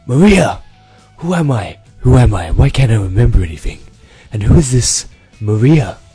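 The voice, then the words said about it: Badly done character voice impression. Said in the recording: “that terrible impression”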